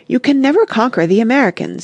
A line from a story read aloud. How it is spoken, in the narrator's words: he cried